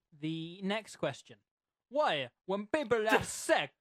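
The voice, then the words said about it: Aggressive vaguely Italian accent. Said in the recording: “What accent is that meant to be? ... do a voice, and I did a voice. ... sort of aggressive, vaguely Italian father.”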